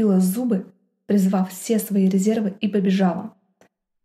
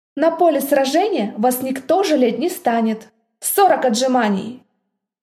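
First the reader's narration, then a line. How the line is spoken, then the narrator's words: Gym teacher barking harshly. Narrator (Russian): Рявкнул этот изверг физрук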